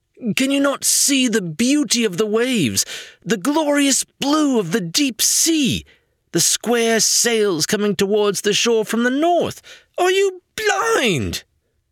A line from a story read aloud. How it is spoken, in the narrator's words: This last was a shriek